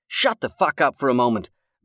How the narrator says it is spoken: Max snapped

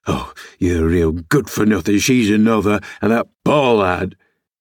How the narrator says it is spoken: he added with a groan

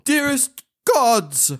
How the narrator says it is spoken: cried Mian aloud

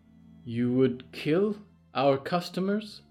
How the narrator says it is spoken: Lady Ethel said slowly

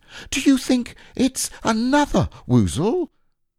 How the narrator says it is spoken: cried Piglet

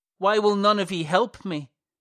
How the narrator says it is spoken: He shouts

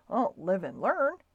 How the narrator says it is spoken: muttered Stuart, tartly

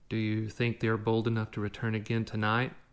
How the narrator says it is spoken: Tatsuo asked

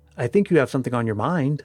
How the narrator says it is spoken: I answered

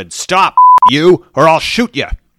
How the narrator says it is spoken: he shouted

